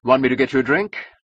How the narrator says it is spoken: said Francon brightly

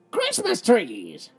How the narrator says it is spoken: they shouted, jumping up and down

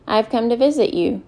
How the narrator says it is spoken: Salva said

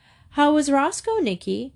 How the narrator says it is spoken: His mother called out

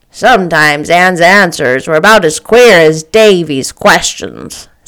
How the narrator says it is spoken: said Marilla dryly

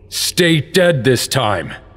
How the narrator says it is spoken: Link said angrily

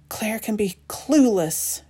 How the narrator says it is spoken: whispers

